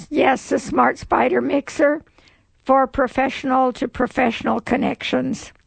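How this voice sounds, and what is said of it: Raspy voice. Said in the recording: “forgive my raspy voice ... allergies in the winter ... it has really affected my voice”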